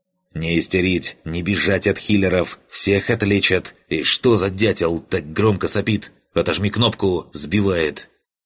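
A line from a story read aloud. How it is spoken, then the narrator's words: Irritated hiss. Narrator (Russian): Раздраженно прошипел лидер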